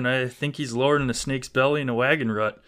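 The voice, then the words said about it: Put-on Wisconsin accent. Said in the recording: “That sounded so sweet in your Wisconsin accent.”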